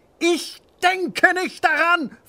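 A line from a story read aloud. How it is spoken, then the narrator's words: Hissing. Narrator (German): faucht der Zweite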